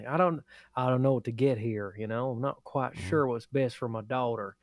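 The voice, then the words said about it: Put-on Texas accent. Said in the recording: “He doesn't sound like that, but that's the only Texas accent I know.”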